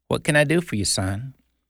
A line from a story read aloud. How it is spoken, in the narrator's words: A lady came out with a very sad look and gently asked